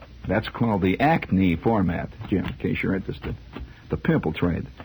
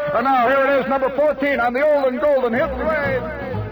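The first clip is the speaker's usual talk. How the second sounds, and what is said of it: Imitates a radio announcer voice. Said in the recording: “I was imitating radio.”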